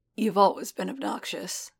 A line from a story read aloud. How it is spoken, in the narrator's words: he rasped